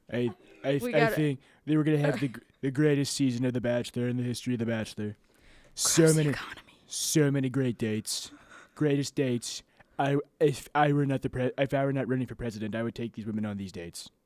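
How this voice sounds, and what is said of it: Imitates another person's voice. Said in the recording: “This is Donald Trump.”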